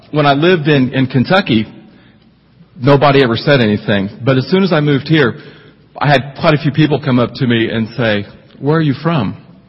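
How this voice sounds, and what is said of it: Twangy Midwestern-Southern accent. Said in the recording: “the accent ... where I grew up, were very twangy, so that's where the accent came from ... I could pass as a native”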